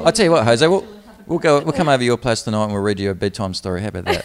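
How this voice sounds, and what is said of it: Foreign English accent. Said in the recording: “your accents. I'm just like, talk more.”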